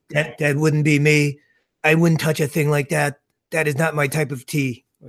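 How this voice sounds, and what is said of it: Imitates another person's voice. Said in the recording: “my Trump impression ... It was it was pretty decent.”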